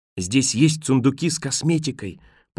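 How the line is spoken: Whisper. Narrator (Russian): прошептала Роэн

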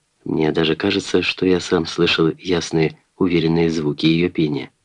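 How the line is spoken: Soft, motherly. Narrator (Russian): материня сказала мягко

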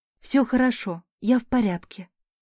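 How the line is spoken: Trembling tearful whisper. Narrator (Russian): дрожащим голосом шептала, чувствуя, как слезы текут по моим щекам

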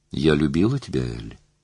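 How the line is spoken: Calm. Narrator (Russian): сказала она спокойно

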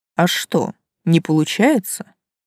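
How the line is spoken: Snorting. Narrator (Russian): хмыкнул Влас

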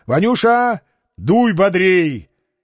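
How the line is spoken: Shout. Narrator (Russian): крикнул младшему брату

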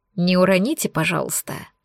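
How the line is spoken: Whisper. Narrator (Russian): говорит шепотом

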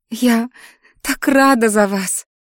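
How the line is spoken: Sobbing. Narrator (Russian): всхлипнула подруга

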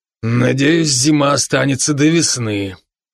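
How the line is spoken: Heavy sigh. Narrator (Russian): Брок тяжело вздохнул

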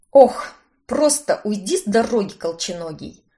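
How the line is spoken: Gruff mutter. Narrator (Russian): Буркнула я

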